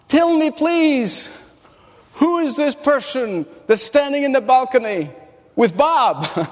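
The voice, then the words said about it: Very heavy foreign accent. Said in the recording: “with a very heavy accent”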